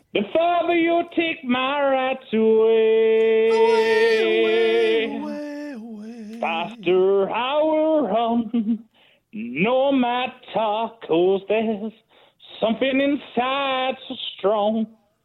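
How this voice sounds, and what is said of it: Sings lyrics in a put-on accent. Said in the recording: “Why are you doing it in that accent? ... Doing the voice.”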